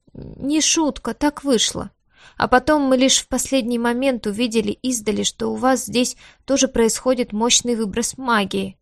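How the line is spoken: Worried mumbling. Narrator (Russian): продолжал озабоченно бубнить профессор Литвик

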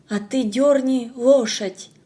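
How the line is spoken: Despairing, aloud. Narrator (Russian): С отчаянием сказала я вслух

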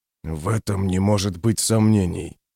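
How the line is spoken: Hiss. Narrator (Russian): прошипел Пайк

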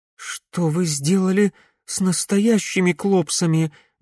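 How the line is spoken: Trembling question. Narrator (Russian): дрожащим голосом спросила Глория

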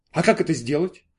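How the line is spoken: Plain. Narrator (Russian): спросил питатель

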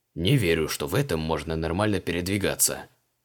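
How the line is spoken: Grumbled. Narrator (Russian): буркнул креол

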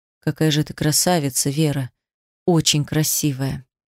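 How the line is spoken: Quiet. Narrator (Russian): негромко сказал

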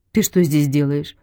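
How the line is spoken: Plain question. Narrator (Russian): спросил Константин

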